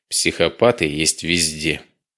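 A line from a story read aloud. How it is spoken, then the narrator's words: Sigh. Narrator (Russian): вздохнул Самедов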